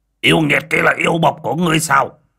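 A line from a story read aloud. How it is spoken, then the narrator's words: Old man's loud bark. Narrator (Vietnamese): lão quay sang quát lớn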